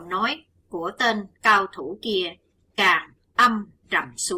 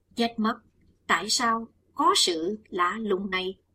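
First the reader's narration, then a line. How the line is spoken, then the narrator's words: Soft alarmed exclamation. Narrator (Vietnamese): chàng kêu khẽ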